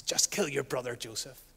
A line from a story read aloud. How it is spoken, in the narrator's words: A sly, slithering serpent whispers